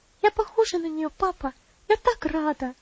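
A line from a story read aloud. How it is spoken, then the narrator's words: Lively joyful girl's exclamation. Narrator (Russian): живо воскликнула девочка, и личико ее озарилось радостной улыбкой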